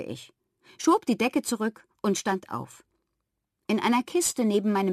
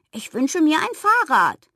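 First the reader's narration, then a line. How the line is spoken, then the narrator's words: Call. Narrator (German): rief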